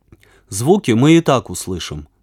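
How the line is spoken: Plain. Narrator (Russian): сказал Веня

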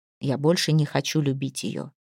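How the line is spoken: Barely audible. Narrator (Russian): чуть слышно сказал он

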